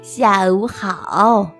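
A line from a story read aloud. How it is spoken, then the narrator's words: Warm, smiling. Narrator (Chinese): 奶奶热情地跟每个人打招呼，微笑着说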